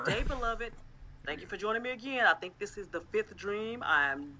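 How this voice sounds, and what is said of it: Southern accent. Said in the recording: “It's like a southern... it sounds like Southern British somehow.”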